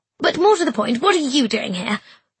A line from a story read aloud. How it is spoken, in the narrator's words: I asked crossly